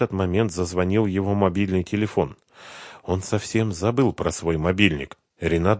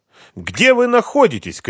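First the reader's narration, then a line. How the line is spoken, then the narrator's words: Shouting. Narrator (Russian): крикнула она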